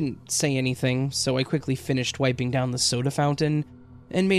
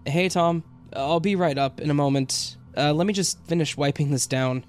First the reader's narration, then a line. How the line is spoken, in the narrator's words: shouted out